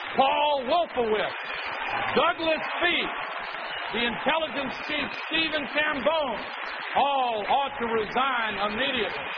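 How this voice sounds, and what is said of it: Southern American accent. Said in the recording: “It's that great Southern accent,”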